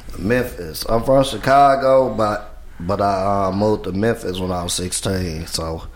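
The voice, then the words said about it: Memphis Southern American accent. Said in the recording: “I picked up the Memphis accent”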